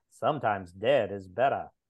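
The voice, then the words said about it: Poor put-on Maine accent. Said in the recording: “That's a terrible main accent. But that's what I was going for.”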